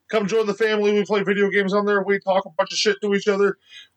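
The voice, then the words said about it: Very fast speech. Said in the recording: “I'm talking really fast”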